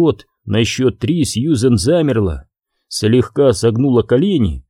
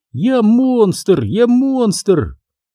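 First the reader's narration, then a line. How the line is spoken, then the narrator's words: Delighted squealing shouts. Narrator (Russian): повизгивая от восторга и выкрикивая беспричинно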